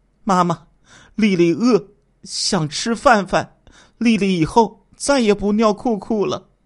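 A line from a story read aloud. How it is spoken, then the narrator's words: Crying child pleading. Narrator (Chinese): 小苏丽哭着渴求说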